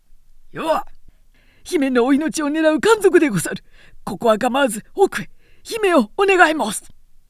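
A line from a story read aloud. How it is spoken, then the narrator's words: Shout. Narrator (Japanese): 心得た金之助は叫ぶなり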